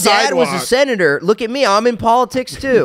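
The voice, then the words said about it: Put-on Delco accent. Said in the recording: “I don't know why he has a Delco accent.”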